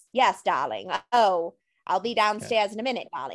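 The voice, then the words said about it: Old-Hollywood transatlantic accent. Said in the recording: “They used the transatlantic accent ... so transatlantic, ladies and gentlemen, is not technically a real accent from anywhere”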